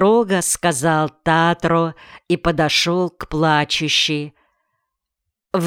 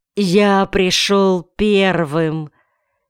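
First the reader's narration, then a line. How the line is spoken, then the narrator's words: Sleepy voice. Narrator (Russian): он не успел совсем проснуться и сонным голосом сказал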